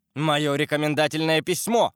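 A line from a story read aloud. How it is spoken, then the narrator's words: Shouting. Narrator (Russian): кричал Д'Артаньян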